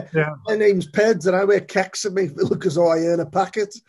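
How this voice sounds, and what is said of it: Poor put-on regional accent. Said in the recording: “apologies for my discount accent”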